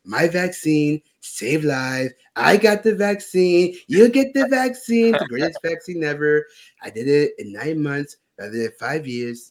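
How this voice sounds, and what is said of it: Imitates another person's voice. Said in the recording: “I know you always do your Trump impression. I was going to do the Trump impression”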